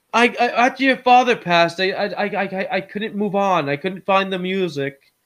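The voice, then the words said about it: Deliberately bad fake accent. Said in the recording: “my fake shitty accent I'm trying to do ... I mean, that's how he sounded.”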